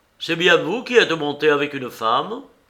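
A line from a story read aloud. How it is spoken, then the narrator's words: Curt reply. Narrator (French): L'inconnu pâlit et répliqua sèchement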